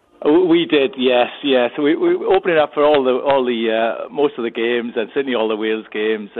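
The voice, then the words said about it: Welsh accent. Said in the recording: “Love your accent, by the way. Always puts me in a good mood hearing the Welsh accent.”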